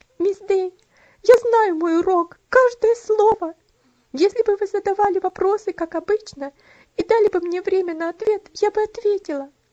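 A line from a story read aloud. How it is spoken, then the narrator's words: Sobbing, overwhelmed. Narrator (Russian): Бедная Элси больше выдержать не могла, но, разрыдавшись, сказала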